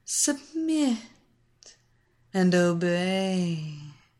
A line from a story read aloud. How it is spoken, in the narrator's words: Evelina repeated over and over in her honey and silk voice